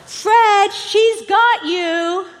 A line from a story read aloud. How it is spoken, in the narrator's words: somebody from the back of the plane yelled out